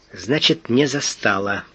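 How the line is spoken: Muttered. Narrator (Russian): пробормотал Фандорин

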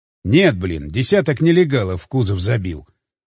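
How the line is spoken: Wry snort. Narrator (Russian): хмыкнул я

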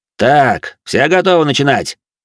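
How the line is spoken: Loud question. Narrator (Russian): громко спросил Габриэль

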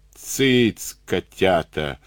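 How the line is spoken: Hissed. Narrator (Russian): прошипел Карабанов

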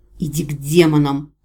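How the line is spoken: Snapping retort. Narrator (Russian): огрызнулась я

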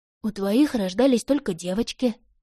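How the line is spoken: Strained, forced words. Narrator (Russian): сумела выдавить Поппи

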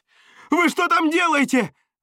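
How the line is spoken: Yelling. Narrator (Russian): заорал я

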